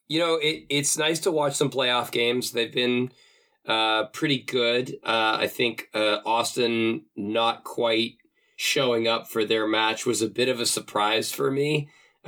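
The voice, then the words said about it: Hoarse, low voice from a cold. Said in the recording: “my voice is a little shot. I got a cold ... this is my low sexy voice”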